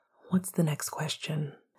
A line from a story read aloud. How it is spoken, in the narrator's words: Sirius asked quietly